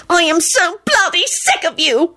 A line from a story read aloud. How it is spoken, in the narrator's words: she screeched